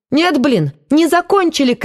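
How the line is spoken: Unrestrained shout. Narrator (Russian): крикнул Воронцов, уже не сдерживаясь

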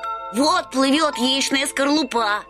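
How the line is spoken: Boys shouting. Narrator (Russian): закричали мальчишки

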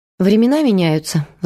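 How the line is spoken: Sighing. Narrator (Russian): вздохнула Майя

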